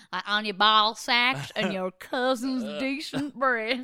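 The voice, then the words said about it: Weird Southern accent. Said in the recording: “in a different weird accent ... Southern”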